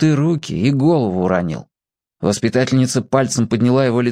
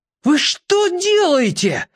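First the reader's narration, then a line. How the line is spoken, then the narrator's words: Yelling mid-fall. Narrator (Russian): Федя орал это уже в полете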